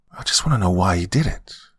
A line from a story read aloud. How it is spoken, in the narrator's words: Tracy replied in a choked voice